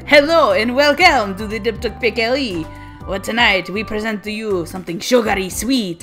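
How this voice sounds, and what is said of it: Put-on Russian accent. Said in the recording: “I'm going from French to Russian in one accent.”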